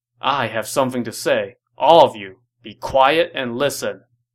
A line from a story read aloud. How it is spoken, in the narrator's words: Dong Zhuo stopped the festivities and said sternly